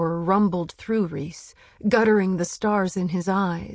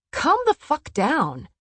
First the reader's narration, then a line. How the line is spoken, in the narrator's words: Cassian snapped